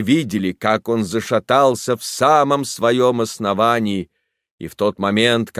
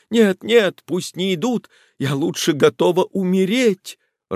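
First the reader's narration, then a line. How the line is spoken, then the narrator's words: Sobbing. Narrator (Russian): рыдала она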